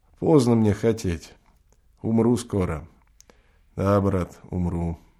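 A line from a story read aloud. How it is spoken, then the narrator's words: Calm reply. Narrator (Russian): отвечает спокойно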